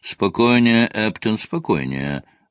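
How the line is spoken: Cooing. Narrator (Russian): проворковал мистер Вэнс

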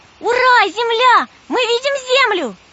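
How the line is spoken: Shouting. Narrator (Russian): Вера тоже закричала

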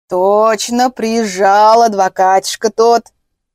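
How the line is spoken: Meaningful drawl. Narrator (Russian): протянул Петрович таким тоном

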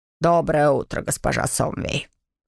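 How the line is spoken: Sepulchral voice. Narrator (Russian): За могильным голосом произнес

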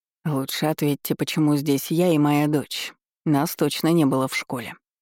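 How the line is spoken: Gloomy questioning, mayor. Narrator (Russian): мрачно поинтересовался градоначальник

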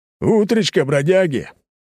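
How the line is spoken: Rough male voice shouting. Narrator (Russian): выкрикнул из открывшейся двери грубый мужской голос

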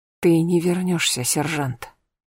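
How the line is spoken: Quiet. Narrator (Russian): тихо сказала она

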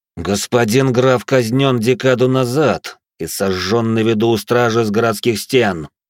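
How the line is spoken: Angry, through gritted teeth. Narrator (Russian): сквозь зубы зло процедил я

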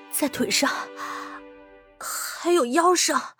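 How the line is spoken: Hoarse. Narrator (Chinese): 端木翠 嘶哑着声音道

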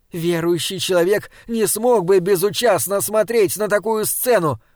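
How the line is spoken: Shouting after someone. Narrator (Russian): крикнула она ему вслед

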